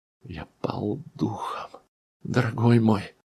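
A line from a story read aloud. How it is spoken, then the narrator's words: Trembling mutter. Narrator (Russian): пробормотал он, дрожа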